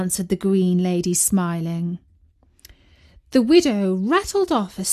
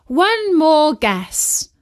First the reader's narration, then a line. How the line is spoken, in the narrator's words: cried the widow